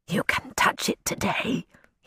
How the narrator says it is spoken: he whispered

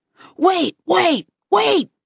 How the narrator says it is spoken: yelled the guy with the flashlight

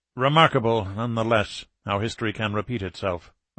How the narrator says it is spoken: Alexeyev muttered

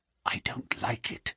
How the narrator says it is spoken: he whispered, putting his lips to my very ear

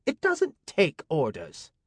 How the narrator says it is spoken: Amina snapped

